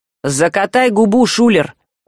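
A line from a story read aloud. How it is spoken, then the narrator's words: Hissing. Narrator (Russian): прошипел Саврянин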